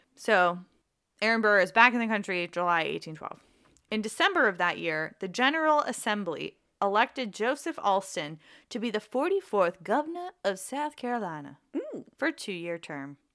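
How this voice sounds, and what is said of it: Generic Southern American accent. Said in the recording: “I just have generic southern accent”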